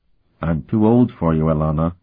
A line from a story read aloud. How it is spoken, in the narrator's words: he reminded her gently once again